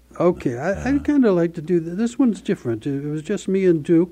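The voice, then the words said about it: Mixed Southern, Midwestern, New England accent. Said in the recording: “that little bit of the southern accent side mixed in with the Midwestern and the Worcester accent ... kind of New England Americana”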